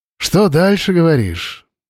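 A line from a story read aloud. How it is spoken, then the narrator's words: Heavy sigh. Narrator (Russian): тяжело вздохнул Андрей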